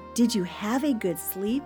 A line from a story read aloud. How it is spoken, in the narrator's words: she asked